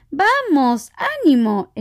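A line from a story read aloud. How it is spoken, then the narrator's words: Exclamation. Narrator (Spanish): exclamó Gran Corazón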